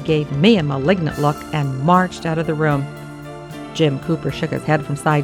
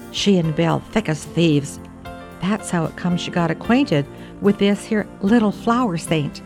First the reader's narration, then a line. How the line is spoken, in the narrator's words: he added almost in a whisper